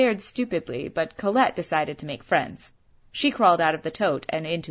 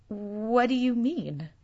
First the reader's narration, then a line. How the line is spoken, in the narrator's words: I stammered finally